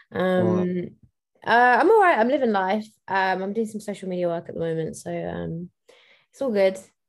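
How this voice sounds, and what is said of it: Hoarse, strained, weak voice. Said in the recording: “My voice really. ... I was screaming too much and now I've lost my voice.”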